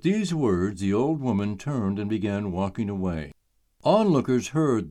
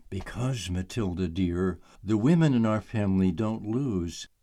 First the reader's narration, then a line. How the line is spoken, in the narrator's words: There was no sweet smile and no warmth in her voice when she leaned in and whispered